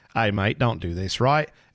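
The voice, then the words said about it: Put-on Australian-sounding accent. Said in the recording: “that was Australian. ... that wasn't even British. That was an Australian accent. ... I was trying to go for Welsh.”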